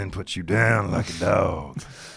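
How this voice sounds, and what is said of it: Impression of The Undertaker. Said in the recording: “his Taker impression ... my Taker impression”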